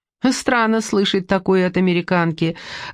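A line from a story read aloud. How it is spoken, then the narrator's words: Laughing. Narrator (Russian): засмеялся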